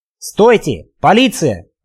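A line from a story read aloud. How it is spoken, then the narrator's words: Shout. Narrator (Russian): крикнул он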